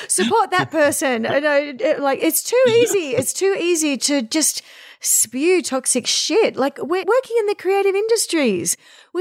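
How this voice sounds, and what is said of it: Australian accent. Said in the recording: “It's an Australian accent.”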